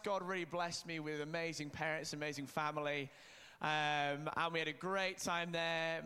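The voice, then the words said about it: Northern English accent. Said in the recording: “I grew up in Leeds, which is the north of England. We have the nicest accent in England”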